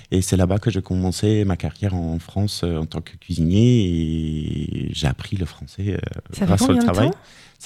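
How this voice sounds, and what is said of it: Slight foreign accent in French. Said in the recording (French): “t'as un petit accent juste comme ça”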